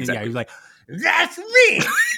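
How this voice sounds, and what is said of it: Imitates another person's voice, muffled. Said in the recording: “That sure sounded like Gilbert Godfrey with a thumb in his mouth ... That's a very good impression.”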